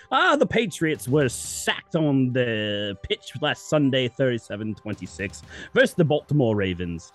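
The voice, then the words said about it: Put-on British accent. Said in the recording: “Now I have to read the rest of this in a British accent.”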